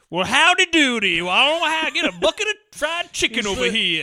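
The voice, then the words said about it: Exaggerated silly Southern accent. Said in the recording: “He's from the South ... His accent is like. So fucking silly.”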